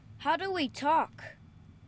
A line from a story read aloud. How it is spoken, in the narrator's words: His voice came through the speakers built into the others' helmets at a high enough volume to make everyone wince